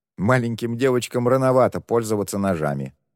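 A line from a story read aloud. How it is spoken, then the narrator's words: Young man's scoffing snort. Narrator (Russian): фыркнул парень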